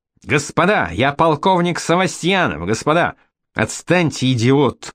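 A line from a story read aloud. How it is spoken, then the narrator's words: Shouting. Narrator (Russian): кричал он Янышу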